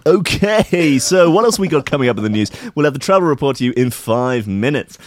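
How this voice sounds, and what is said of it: Cheesy local radio DJ voice. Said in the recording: “presenting the whole rest of the show in the local radio voice ... you sound like Dr. Fox or something”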